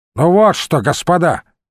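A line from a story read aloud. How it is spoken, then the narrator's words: Barked shout. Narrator (Russian): рявкнул он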